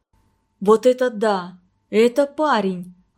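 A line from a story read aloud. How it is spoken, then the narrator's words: Sudden exclamation. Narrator (Russian): воскликнула вдруг Марина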